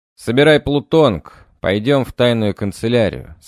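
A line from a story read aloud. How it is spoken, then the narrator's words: Plain. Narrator (Russian): сказал я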